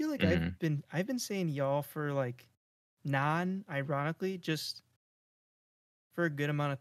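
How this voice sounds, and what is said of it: Usual voice. Nothing is said of it.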